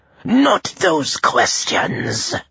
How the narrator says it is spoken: Menshikov snapped

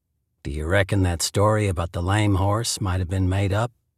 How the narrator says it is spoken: asked dryly

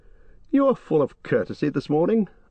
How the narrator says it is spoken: laughed Legolas

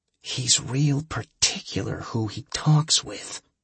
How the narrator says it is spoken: Milo whispered

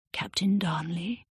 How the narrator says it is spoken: she whispered

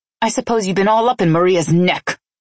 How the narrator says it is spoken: I snapped

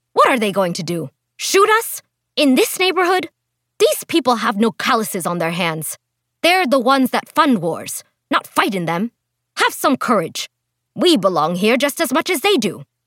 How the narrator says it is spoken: she barked at him

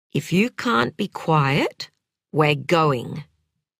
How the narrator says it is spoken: said Sam in a low, shaky voice

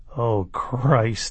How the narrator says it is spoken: Alex said, rolling his eyes

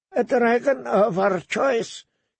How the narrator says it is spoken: he said in a thin, hard voice

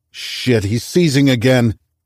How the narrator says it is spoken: Reese shouted

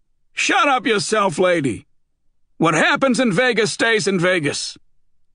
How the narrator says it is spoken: The even older man next to her shouted

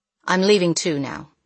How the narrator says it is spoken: said the husband

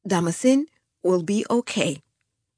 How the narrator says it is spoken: I said, trying to make my voice sound steady

